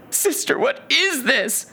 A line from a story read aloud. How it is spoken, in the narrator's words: Heinrich begged